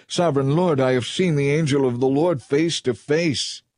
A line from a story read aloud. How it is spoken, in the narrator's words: When Gideon realized that it was the angel of the Lord, he cried out